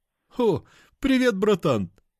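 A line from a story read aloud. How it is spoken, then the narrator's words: Exclaimed. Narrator (Russian): воскликнул Андроп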